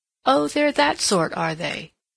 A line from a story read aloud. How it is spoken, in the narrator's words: said Miss Markham, with a little laugh